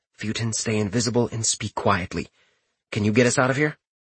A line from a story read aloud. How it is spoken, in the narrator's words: whispered softly